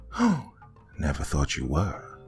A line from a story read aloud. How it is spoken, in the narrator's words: Mark replied in a friendly tone